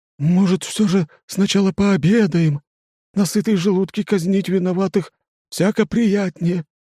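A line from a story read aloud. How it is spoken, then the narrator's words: Timid suggestion. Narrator (Russian): робко предлагает лимбиец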